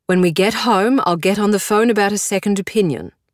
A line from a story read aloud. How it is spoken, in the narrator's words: I say, my voice full of authority